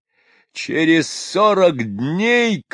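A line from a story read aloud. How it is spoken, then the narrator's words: Shouting. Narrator (Russian): кричал он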